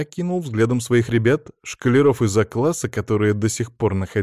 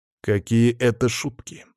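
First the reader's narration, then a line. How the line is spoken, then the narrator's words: Steely interruption. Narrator (Russian): стальным голосом прервал его я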